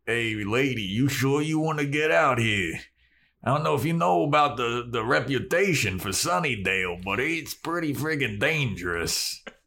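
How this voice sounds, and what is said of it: Put-on accent for a character. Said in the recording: “That's not his accent at all, but I love it.”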